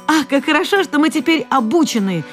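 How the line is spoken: Squeaking little mice. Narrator (Russian): запищали мышата

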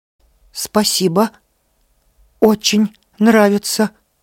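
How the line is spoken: Strained, forced out. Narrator (Russian): еле выдавил он из себя

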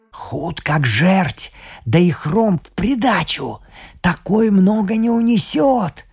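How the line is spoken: Whispering man. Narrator (Russian): шепнул бургомистр

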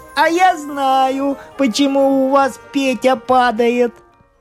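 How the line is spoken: Laughing. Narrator (Russian): Коля засмеялся и говорит

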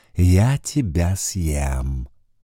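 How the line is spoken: Silky purr. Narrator (Russian): вкрадчиво промурлыкал он

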